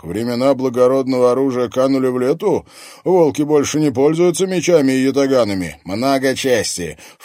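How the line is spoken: Wolf snorting. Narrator (Russian): фыркнул один из волков

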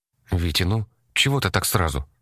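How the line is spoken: Calm mother. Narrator (Russian): Мама разговаривала, как всегда, спокойно

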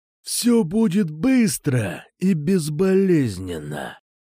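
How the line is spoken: Growled threateningly. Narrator (Russian): прорычал Кукуша

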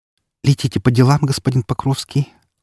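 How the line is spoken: Timid smiling. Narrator (Russian): робко улыбнулась

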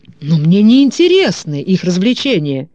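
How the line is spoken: Indignant exclamation. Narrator (Russian): в негодовании воскликнул Дезессент

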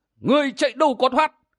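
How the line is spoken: Old man shouting. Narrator (Vietnamese): Vừa quát, lão

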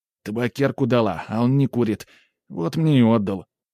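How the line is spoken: Grumbling mutter. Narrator (Russian): буркнул геройский пострадавший

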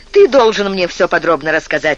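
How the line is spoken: Sharp interruption. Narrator (Russian): резко прервал его Стефан

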